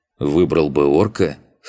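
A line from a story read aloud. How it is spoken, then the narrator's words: Snorting grunt. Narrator (Russian): хмыкнул Макс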